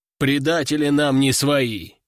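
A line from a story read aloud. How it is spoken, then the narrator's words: Deep bass voice. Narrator (Russian): пробасил Буйвол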